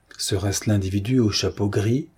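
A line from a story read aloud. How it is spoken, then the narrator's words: Murmured. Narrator (French): murmura-t-il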